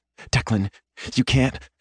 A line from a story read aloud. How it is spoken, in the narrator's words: says breathlessly